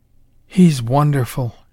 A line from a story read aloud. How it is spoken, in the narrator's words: she breathed